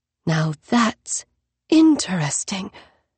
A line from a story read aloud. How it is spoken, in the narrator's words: Three Seagrass breathed